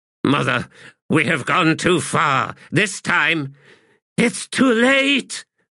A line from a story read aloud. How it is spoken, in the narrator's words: shrieked Erastus